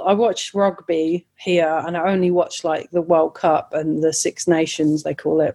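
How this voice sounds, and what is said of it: English accent. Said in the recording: “I've got an English accent,”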